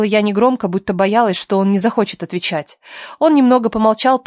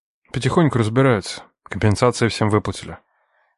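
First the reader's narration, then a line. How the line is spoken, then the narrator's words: Calm but tired voice. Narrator (Russian): сказал Андрей спокойно, но в голосе слышалась усталость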